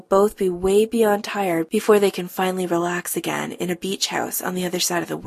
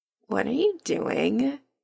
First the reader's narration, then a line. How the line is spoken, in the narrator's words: Adam murmurs without opening his eyes